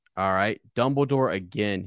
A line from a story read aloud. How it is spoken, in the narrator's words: said